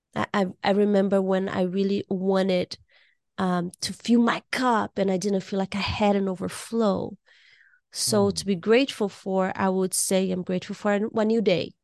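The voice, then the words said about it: Slightly hoarse voice. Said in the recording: “You can hear my voice. I'm a little hoarse.”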